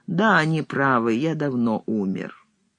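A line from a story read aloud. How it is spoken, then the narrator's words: Calm. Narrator (Russian): Блок спокойно сказал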